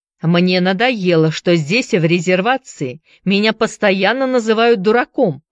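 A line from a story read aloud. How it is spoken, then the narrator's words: Shout. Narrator (Russian): закричал он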